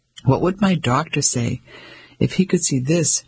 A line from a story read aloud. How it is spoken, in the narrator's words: Dora chuckled